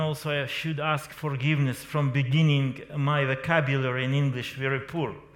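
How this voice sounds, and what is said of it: Strong foreign accent in English. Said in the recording (Norwegian): “you can feel my bad accent”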